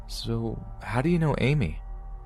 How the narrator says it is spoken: he responded in his shaky and unflattering voice

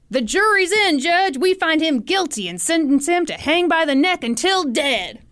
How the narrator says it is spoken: But a member of the mob shouted

